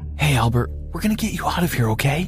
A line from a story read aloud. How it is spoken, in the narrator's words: Mom said softly